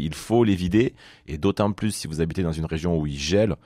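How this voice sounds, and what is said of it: Southern French Perpignan accent. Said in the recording (French): “j'aime beaucoup l'accent de ... c'est quel accent ... je dirais plutôt euh, Marseille, mais c'est pas l'accent marseillais ... c'est Perpignan”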